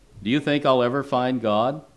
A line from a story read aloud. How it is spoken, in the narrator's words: he asked in a slightly cynical tone